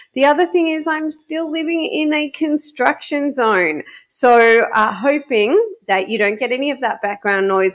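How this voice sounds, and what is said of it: Slightly crackly voice. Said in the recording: “I still am a little crackly from the laryngitis ... forgive me if my voice goes crackly”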